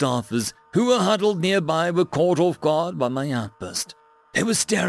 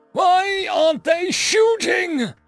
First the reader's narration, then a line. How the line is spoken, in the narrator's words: screamed